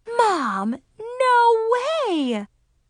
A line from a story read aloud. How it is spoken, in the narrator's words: I gasped